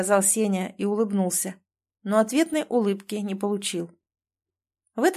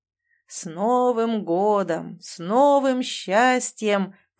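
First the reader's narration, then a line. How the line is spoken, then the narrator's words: Booming rumble. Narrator (Russian): прогудел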